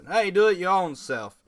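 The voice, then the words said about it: Poor put-on Southern accent. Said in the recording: “I don't know why I gave them a southern accent. I can't do the Brooklyn accent... That was horrible. I apologize for that horrible southern accent.”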